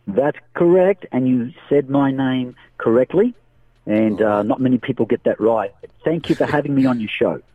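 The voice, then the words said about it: Australian accent with Italian mix. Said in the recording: “I enjoy actually hearing that Australian accent ... It's a little bit of a mix between Italian and Australian. So I tend to be a motor mouth.”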